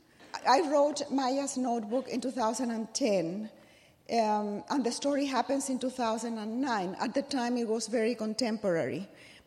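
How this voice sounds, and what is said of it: Husky, congested voice. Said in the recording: “this sexy voice is because I have a cold.”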